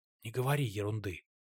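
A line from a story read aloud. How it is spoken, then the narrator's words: Whisper. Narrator (Russian): шепнула ему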